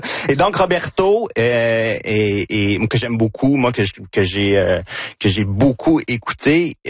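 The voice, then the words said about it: Victoriaville French accent. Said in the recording (French): “mon accent de Victoriaville”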